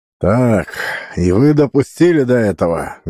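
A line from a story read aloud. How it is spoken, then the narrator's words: Menacing general. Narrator (Russian): грозно сказал генерал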